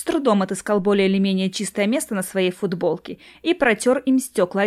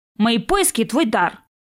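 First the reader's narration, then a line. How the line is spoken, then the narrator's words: Sharp answer. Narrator (Russian): резко ответил он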